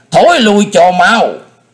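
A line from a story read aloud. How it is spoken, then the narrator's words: Alarmed old man's shout. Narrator (Vietnamese): Linh Châu đạo nhân thấy nguy cơ của đồng đạo, lão nhân thét lên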